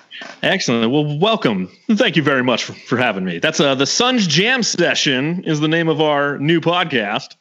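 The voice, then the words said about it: Put-on radio announcer voice. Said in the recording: “why the fuck are you talking like this? ... You like that radio voice?”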